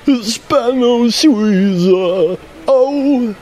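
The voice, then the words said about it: Imitates another person's singing voice. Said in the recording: “my impression of Midjour, which is not that great”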